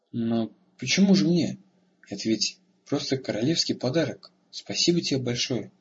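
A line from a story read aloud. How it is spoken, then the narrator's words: Confused mumble. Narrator (Russian): растерянно пробормотал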